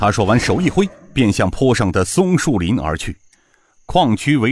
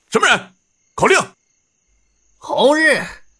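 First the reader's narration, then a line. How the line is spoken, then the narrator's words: Guards shouting. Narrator (Chinese): 门口几个守卫……大喊道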